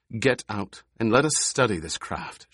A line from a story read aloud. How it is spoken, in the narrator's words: she said